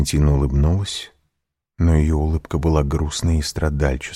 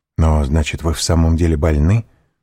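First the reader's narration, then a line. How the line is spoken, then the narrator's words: Quick question. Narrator (Russian): быстро спросил Морель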